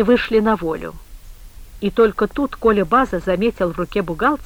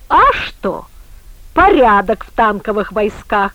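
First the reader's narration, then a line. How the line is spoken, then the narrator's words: Sudden delighted exclamation. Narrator (Russian): Вдруг воскликнул он, наполняясь восторгом то ли от настоянного морозного воздуха, то ли от предвкушения близкого застолья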